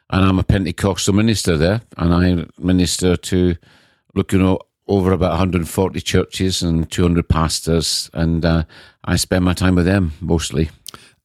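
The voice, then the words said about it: Scottish accent. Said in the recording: “you don't have a very English accent ... I'm one of these fortunate people who were born in Scotland”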